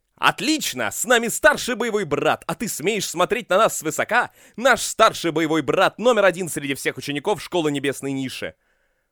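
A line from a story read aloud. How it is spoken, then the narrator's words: Loud feigned-fear exclamation. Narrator (Russian): Чуян, который делал вид, будто напуган всем миром, громко воскликнул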